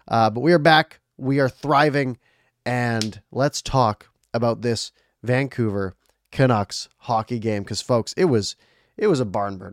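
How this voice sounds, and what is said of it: Sick-sounding voice from a cold. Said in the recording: “I got really sick, and you can still probably hear it in my voice. I've been battling a cold”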